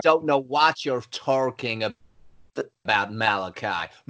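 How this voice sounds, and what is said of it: Terrible put-on American accent. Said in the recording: “My American accent is excellent. ... That's terrible. That is awful. ... Actually made me feel a little bit sick then when you did that.”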